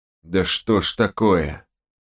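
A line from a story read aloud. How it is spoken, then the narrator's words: Through clenched teeth. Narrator (Russian): процедил сквозь зубы док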